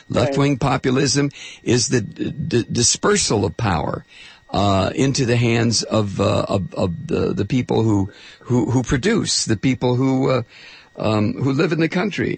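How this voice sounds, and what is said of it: Hoarse, strained voice. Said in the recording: “I'm losing my voice again.”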